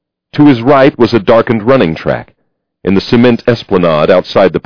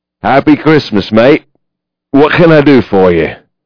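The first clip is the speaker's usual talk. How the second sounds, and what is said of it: Drunken East London accent. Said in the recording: “His accent, when he spoke to Gabriel, was East London and leaden with drink.”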